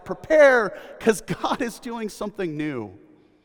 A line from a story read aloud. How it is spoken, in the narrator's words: the voice in the wilderness cries out